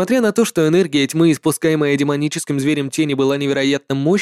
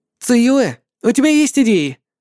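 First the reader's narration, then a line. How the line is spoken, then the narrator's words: Shouting while running. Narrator (Russian): Пока бежал, выкрикнул Лин Чен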